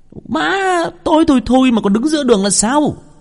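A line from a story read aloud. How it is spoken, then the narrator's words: Shouting. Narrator (Vietnamese): Hồng hét lên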